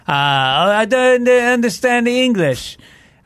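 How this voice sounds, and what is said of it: Put-on Spanish accent. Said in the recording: “I don't know why he had a Spanish accent.”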